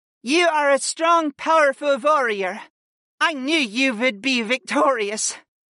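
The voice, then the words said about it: Determined voice. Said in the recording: “declared in a determined voice”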